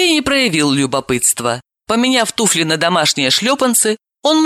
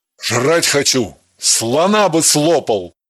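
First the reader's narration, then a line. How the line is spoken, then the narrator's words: Playful growl. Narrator (Russian): шутливо прорычал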